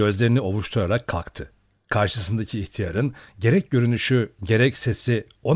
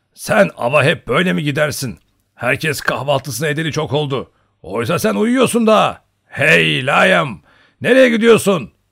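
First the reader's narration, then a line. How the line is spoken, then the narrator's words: Shouting. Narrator (Turkish): diye bağırdı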